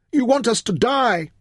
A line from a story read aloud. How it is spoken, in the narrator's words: they howled